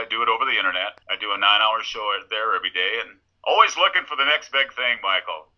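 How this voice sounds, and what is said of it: Deep radio announcer voice. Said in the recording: “you definitely have that radio voice ... it's deeper than I am”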